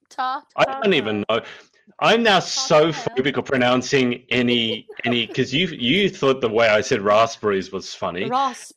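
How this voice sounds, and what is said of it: Mixed Australian, British and American accent. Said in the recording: “my accent is now this mishmash of Australian, UK, and US”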